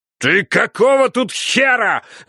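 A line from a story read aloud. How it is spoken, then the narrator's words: Shouting over protests. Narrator (Russian): заорал он, перекрывая мои протесты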